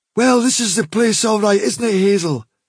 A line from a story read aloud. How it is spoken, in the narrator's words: said Dandelion lazily